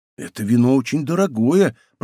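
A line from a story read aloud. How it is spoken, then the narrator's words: Whispered. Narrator (Russian): прошептал Блезуа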